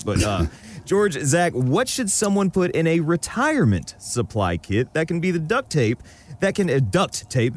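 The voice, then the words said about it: Alabama Southern accent. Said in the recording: “I try to knock the Alabama off my accent.”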